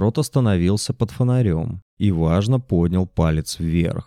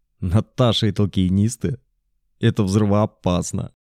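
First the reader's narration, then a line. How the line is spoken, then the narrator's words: Laughing. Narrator (Russian): засмеялся Макс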